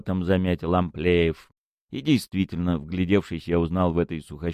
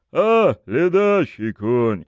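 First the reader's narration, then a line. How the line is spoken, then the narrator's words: Displeased grumble. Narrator (Russian): проворчал с неудовольствием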